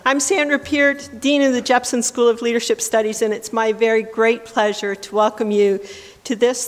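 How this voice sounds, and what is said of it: Scratchy voice from a cold. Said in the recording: “Please excuse my scratchy voice. ... I've got a bit of a cold”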